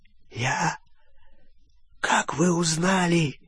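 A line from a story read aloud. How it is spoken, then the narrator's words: Hoarse wheeze. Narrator (Russian): прохрипел Олливандер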